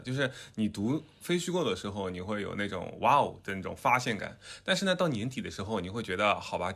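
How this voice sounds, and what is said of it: Southern Chinese accent. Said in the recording (Chinese): “有很多的听众嘲笑我的南方口音，那我就用南方口音来念这本书的名字”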